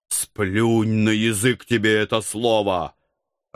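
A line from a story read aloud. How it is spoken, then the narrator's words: Growled. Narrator (Russian): рыкнул я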